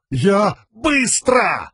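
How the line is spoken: Barked. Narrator (Russian): рявкнул Каладин

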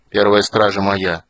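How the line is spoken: Gloomy. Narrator (Russian): мрачно проговорил Стурм

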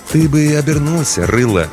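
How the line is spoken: Gentle advice. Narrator (Russian): мягко посоветовал

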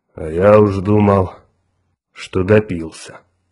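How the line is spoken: Relieved sigh. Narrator (Russian): облегченно вздохнул землянин

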